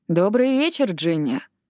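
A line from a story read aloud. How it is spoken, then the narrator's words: Lazy, smiling. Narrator (Russian): лениво улыбнулся Билли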